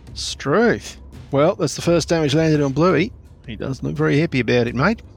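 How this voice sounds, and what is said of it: Bad put-on Australian accent. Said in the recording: “Terrible Australian accent.”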